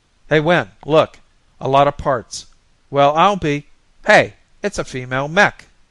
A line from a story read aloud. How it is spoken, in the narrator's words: Roberts shouted